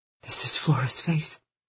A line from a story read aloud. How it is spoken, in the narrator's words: she whispered to me